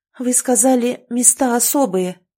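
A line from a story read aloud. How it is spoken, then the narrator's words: Timid speech. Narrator (Russian): робко проговорила Вера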